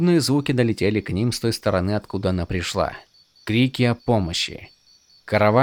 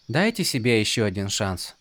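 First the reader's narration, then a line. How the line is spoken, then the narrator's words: Young woman's soft suggestion. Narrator (Russian): негромко предложила девушка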